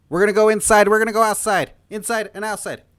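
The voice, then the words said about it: Impression of a football coach's pep talk. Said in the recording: “It was Newt Rockne was the coach he was impersonating.”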